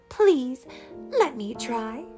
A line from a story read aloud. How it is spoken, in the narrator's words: cried Cinderella